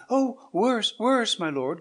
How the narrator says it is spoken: cried Diego

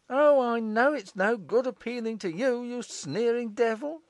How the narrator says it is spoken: cried Morris

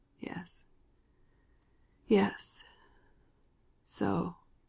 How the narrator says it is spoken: the dying man murmured slowly, with long pauses

